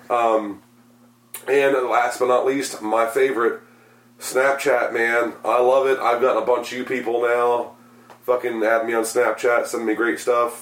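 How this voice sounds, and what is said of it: Strained, fading hoarse voice. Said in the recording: “I'm losing my voice, by the way. I don't know if you can tell, but I'm starting to lose the voice.”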